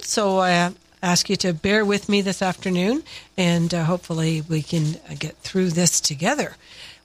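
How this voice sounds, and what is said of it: Congested voice with a cold. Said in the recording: “I have a bit of a cold,”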